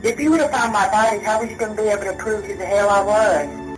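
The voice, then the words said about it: Thick Southern American accent. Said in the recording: “odd Southern accent ... The accent was really thick ... She has a Southern accent. It's a pronounced Southern accent.”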